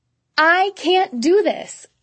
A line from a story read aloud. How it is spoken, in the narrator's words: I screamed at the top of my lungs, my chest heaving